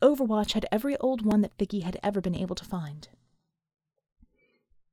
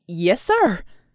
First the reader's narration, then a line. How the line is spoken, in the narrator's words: Colt stammered